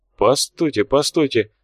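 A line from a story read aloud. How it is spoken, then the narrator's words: Mutter. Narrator (Russian): бормотал Лунин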